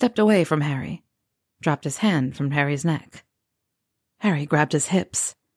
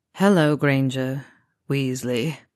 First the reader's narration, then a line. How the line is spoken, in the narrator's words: Draco said in a flat tone